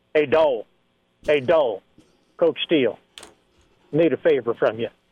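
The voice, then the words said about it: Impression of Kevin Steele. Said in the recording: “Kevin Steele impersonation”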